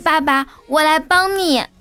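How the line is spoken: Son shouting loudly. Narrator (Chinese): 儿子大声喊道

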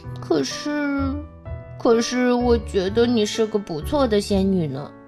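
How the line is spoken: Sniffling mumble. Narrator (Chinese): 哈瓦尔吸吸鼻子，嘟囔着

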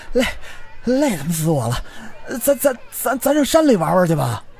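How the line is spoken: Out of breath, panting. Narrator (Chinese): 赵庆气喘吁吁地说

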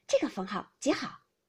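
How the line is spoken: Smiling. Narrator (Chinese): 探春笑道

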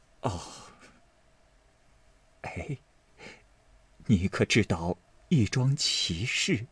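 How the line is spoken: Crying. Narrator (Chinese): 王夫人哭道

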